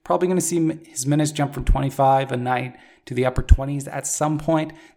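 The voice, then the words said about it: Hoarse, strained voice. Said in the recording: “I'm losing my voice”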